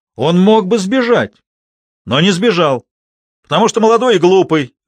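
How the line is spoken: Shouted. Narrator (Russian): выкрикнул кто-то

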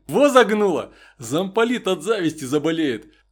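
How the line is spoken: Laughing captain. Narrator (Russian): Засмеялся капитан Дубов

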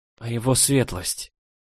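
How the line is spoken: Quiet nervous question. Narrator (Russian): Тихонько поинтересовалась, нервно

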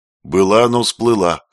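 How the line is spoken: Dry snort. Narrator (Russian): хмыкнул Родион

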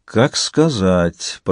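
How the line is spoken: Drawling. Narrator (Russian): протянул Вингельд

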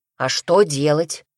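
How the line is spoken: Snapping retort. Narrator (Russian): огрызнулся Павел

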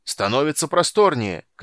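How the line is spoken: Distant shout. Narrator (Russian): крикнул с носа Фиш

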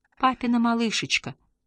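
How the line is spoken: Tender, affectionate. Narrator (Russian): ласково произнес Ингвар

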